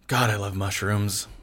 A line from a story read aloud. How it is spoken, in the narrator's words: sighed